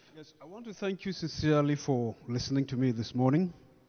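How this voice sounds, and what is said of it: Nigerian accent. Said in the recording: “I know that accent, as you call it, may have impeded a lot of understanding ... if you say I have accent, you come to Nigeria”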